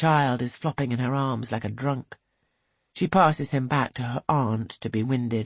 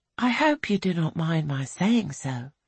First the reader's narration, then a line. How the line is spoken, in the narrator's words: says Angelica kindly